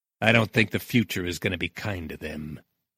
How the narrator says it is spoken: he muttered

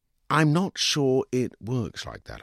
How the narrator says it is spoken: I said, light slowly dawning

